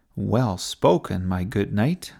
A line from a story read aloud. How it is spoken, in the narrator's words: said Sophie